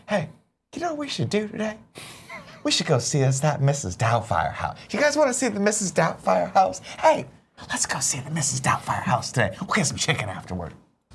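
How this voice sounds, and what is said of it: Funny put-on character voice. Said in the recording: “I do this voice sometimes ... I do this voice to her that cracks her up.”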